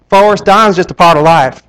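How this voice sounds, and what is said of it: Poor put-on Southern accent. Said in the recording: “that's my fatal attempt at talking with a southern accent”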